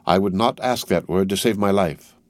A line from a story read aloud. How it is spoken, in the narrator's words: said Darnay, modestly but firmly